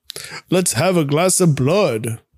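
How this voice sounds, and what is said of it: Dracula accent. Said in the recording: “says in a Dracula accent”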